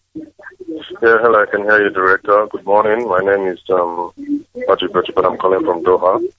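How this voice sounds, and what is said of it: Posh-sounding accent. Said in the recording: “You speak very well. Your accent is quite posh”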